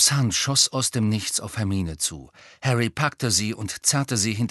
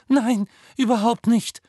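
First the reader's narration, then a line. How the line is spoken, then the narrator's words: Squeaked. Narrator (German): quiekte Hermine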